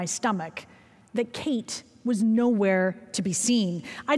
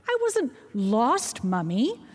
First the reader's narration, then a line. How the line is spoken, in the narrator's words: she said indignantly